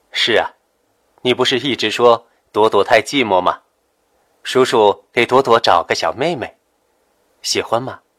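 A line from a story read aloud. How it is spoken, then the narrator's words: Warm, smiling. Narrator (Chinese): 夏医生温和的笑着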